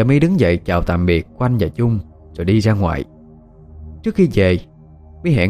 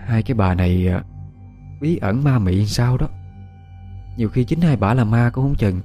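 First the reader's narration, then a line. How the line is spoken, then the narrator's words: Sighing. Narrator (Vietnamese): Chợt Quanh thở dài nói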